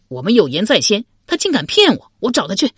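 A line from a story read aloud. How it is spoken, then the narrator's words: Astonished, then furious. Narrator (Chinese): 陆仪先是愕然，随即大怒道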